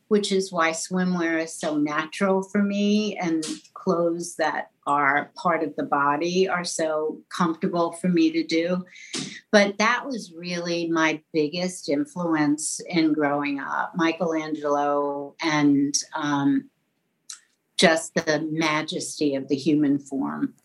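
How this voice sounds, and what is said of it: Mild New York accent. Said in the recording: “This is a New York accent we have here... It's not a very heavy New York accent.”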